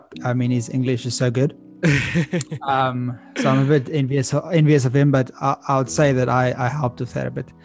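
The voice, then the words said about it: Slight Afrikaans accent. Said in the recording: “I've got a bit of Afrikaans accent”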